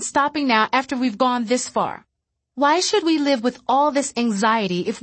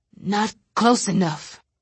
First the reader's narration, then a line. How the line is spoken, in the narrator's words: he muttered